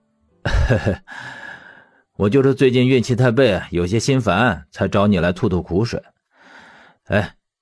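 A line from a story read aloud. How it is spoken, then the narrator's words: Embarrassed, light laugh. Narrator (Chinese): 魏正义洒然一笑，不好意思道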